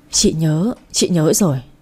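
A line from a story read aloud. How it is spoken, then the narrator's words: Trembling voice. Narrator (Vietnamese): Chị Hồng nói giọng run run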